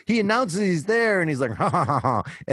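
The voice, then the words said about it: Menacing villain laugh impression. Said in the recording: “my Shadow impression”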